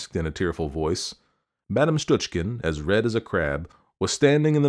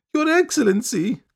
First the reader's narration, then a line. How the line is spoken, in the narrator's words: cried Madame Stuchkin